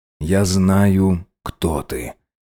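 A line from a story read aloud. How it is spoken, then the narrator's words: Stoat's barely audible voice. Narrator (Russian): сообщил горностай еле слышно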